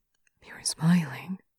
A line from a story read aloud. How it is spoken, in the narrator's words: he murmurs